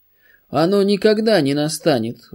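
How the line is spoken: Sudden terrible shout. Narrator (Russian): вдруг закричал Пилат таким страшным голосом

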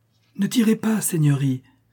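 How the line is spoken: Frightened cry. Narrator (French): s'écria-t-il avec effroi

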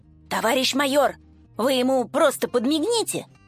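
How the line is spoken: Sergeant's whisper. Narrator (Russian): шепнул с поста дежурный сержант Толя, виновато

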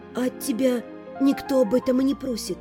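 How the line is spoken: Whisper. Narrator (Russian): прошептала я

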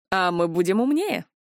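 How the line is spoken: Scoffing snort. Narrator (Russian): хмыкнул Ришел

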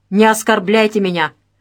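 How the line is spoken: Impatient yell. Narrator (Russian): потеряв терпение, заорал Федотов

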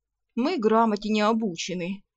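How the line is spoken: Grumbling, grudging respect. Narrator (Russian): проворчала та с наклюнувшимся уважением

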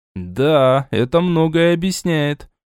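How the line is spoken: Drawled. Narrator (Russian): протянул я

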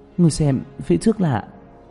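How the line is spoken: Trembling voice. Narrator (Vietnamese): Tạ Vũ Tình ... run rẩy

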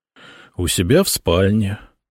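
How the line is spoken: Gloomy reply. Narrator (Russian): мрачно ответил Сосновский

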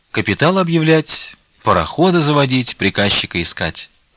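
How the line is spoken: Cheerful. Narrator (Russian): сказала Марья Гавриловна, весело

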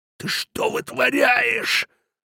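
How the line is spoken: Strangled hiss. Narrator (Russian): сдавленно зашипел он

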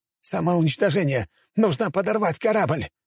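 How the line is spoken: Captain's sudden shout. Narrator (Russian): Вдруг выкрикнул капитан

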